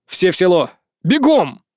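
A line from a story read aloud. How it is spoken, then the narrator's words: Yell. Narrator (Russian): заорал я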